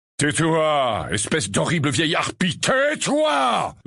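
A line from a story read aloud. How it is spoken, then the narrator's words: Roared. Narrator (French): rugit-il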